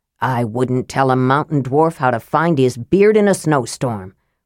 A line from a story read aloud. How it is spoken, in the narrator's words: Flint said scornfully